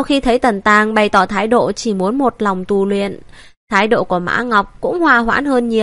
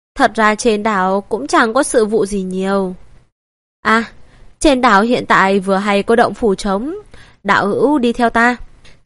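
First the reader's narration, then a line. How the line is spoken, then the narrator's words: Slightly hesitant. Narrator (Vietnamese): Mã Ngọc sắc mặt hơi ngập ngừng nói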